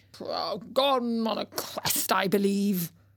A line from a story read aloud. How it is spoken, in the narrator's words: The old king muttered